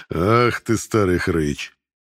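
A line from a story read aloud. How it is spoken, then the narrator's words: Laughing. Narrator (Russian): засмеялся Картер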